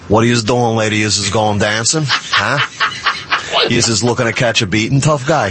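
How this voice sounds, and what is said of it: New York accent. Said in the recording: “I worked very hard to lose my New York accent, but would you love to hear it?”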